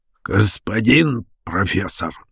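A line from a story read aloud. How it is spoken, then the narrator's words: Pleasant husky voice. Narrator (Russian): начал незнакомец приятным сиповатым голосом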